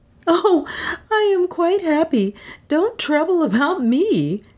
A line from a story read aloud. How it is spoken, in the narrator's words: said, laughing as merrily